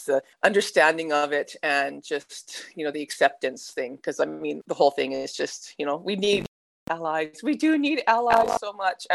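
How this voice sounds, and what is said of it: Canadian accent. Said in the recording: “You can tell by the accent, though, I'm like Canadian ... what's up with her really non-existent Aussie accent”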